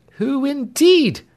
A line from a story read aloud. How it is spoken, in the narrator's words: cried Clemency